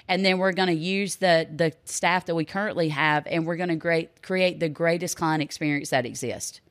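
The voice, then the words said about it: Strong Southern American accent. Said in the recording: “you have that unbelievable accent to your favor ... Everybody feels taken care of down south at home”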